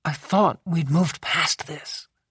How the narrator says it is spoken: she said softly

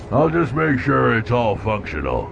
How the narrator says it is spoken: he said, his voice muffled by his face mask, and further muffled because his head was in the motor mounts

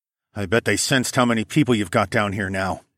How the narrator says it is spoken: I muttered

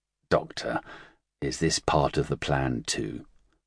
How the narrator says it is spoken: Kent asked softly

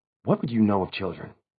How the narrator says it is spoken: She whispered

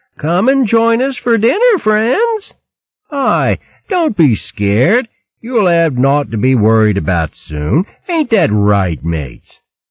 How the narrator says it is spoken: calling mockingly

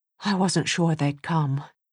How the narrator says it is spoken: he muttered

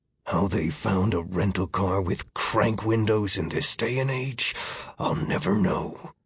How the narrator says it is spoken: Miller mumbled

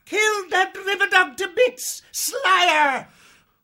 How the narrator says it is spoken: he screeched

